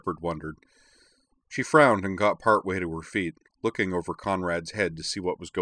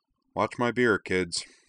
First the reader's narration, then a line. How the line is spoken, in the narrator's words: she said